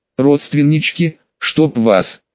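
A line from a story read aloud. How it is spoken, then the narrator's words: Tearful groan. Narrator (Russian): простонал, вытирая выступившие на глаза слезы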